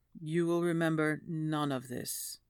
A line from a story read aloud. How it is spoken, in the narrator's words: Louise murmurs